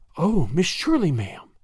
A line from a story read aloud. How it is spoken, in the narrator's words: she breathed